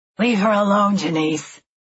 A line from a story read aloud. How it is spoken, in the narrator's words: said the tall blonde in a low, guttural voice